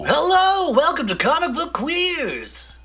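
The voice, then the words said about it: Crazy put-on voice, sore throat. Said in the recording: “I have a little bit of a sore throat, but I'm using it to my advantage in doing this crazy voice”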